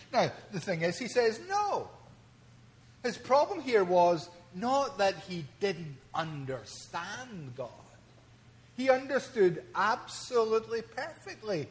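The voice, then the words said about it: Speaks with a strong accent. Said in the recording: “maybe most of you have no clue what I am saying because of my accent”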